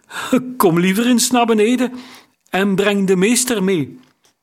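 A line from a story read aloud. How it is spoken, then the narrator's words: Calling, unsteady voice. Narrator (Dutch): riep hij met onvaste stem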